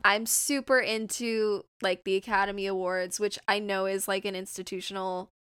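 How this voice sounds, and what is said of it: Southern California accent. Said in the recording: “I'm from Southern California, if you couldn't tell from my voice.”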